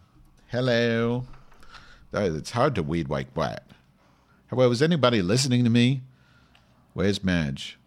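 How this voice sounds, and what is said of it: Noticeable regional accent. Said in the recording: “accent needs work... It's not an accent. It's the way we talk.”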